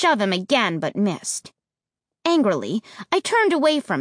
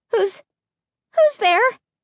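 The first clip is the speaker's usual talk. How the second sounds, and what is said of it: High, small stammering voice. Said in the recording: “I managed to stammer in a high little voice I didn't recognize”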